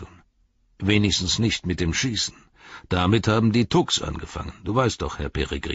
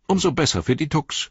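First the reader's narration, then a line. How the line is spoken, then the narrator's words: Called out. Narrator (German): rief Pippin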